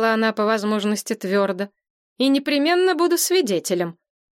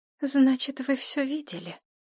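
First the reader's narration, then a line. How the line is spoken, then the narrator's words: Quiet question. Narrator (Russian): тихо спросила Нина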